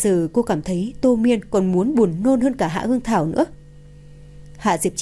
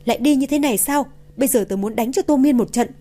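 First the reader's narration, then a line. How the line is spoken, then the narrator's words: Shouting. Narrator (Vietnamese): la hét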